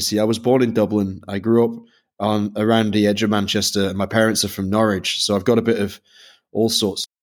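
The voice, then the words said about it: Mixed Northern English-Irish accent. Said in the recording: “my corrupted Irish Northern English brogue ... mine has become slightly more pan-European as I've moved around. It used to be a lot thicker when I was a kid ... a Northern Irish brogue”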